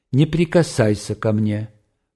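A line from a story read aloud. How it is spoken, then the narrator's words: Calm, chilling voice. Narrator (Russian): произнесла она спокойно и страшно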